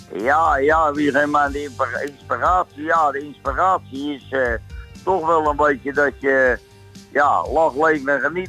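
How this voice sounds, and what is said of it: Dutch with a Leiden accent. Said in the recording (Dutch): “Ik hoor een bepaalde accent. ... Leiden. ... een echte geboren Leidenaar”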